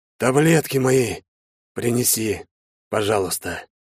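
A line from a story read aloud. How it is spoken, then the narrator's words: Hoarse wheeze. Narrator (Russian): прохрипел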